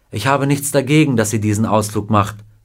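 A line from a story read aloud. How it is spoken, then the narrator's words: Plain. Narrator (German): sagte Mrs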